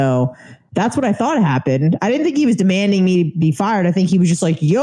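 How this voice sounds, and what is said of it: Usual voice. Nothing is said of it.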